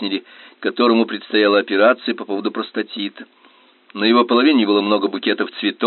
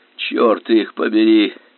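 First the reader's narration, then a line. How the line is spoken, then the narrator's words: Hoarse wheeze. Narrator (Russian): сипел Чарльз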